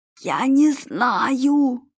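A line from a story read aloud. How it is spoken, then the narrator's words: Hoarse rasp. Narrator (Russian): прохрипел испанец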